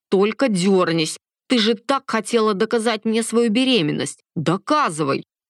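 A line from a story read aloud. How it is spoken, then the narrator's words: Angry. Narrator (Russian): Зло закончил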